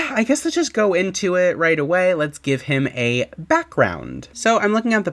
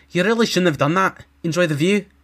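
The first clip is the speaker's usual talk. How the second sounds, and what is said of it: Exaggerated Scottish accent, Sheogorath voice. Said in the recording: “my really bad, exaggerated Scottish accent”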